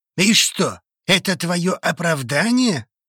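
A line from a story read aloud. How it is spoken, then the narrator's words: Menacing question. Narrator (Russian): грозно вопросил он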